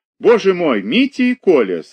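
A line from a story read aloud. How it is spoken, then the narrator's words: Drawn-out and joyful. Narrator (Russian): сказала протяжно и радостно Ольга Михайловна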